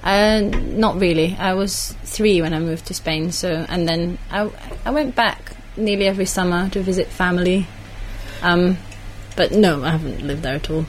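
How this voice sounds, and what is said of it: Slight Scottish accent. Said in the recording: “you still have a kind of Scottish accent, though ... Yes, a little bit.”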